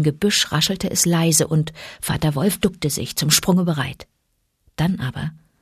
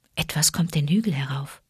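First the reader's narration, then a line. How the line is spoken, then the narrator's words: Mother wolf whispering. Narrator (German): flüsterte Mutter Wolf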